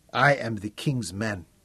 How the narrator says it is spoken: he said softly

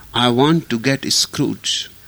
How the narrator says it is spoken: replied the visitor

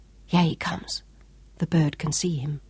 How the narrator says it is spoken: Sean whispered, only inches behind her ear

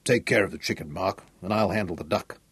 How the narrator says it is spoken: Sean growled

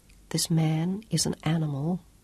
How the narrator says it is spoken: Claudia said softly in Italian

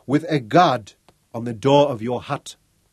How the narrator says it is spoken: Gandang repeated sharply

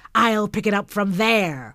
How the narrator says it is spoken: roared Slangbeck

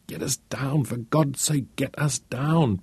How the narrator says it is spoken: Peter pleaded

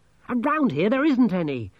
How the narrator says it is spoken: Angelo snapped

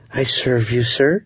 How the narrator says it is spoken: breathed at my ear

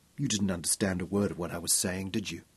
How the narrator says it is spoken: She asked softly

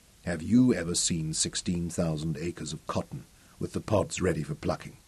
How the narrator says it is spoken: he asked quietly

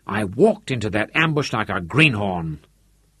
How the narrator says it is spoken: he snarled, angry at himself

